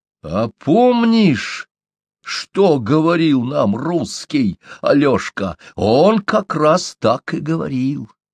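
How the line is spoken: Exclaiming. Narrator (Russian): воскликнул Чумбок

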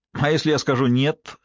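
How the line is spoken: Skeptical snort. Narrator (Russian): хмыкнул Шай

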